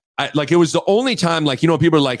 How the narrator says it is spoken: I snapped

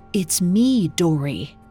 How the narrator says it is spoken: She whispered

